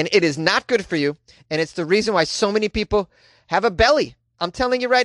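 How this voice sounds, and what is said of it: Usual voice. Nothing is said of it.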